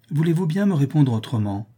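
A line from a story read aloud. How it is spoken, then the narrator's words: Exclaimed. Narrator (French): s'écria Madame de Lignolle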